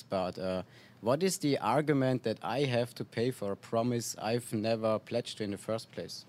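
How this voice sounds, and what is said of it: Austrian accent. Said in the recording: “where are you from your accent? ... Austria”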